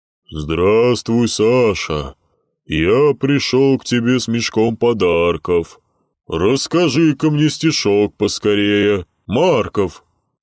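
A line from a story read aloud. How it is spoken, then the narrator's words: Rumbling trained bass. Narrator (Russian): пророкотал Дед Мороз хорошо поставленным басом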